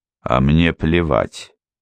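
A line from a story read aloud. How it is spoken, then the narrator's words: Lazy. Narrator (Russian): лениво сказал Глеб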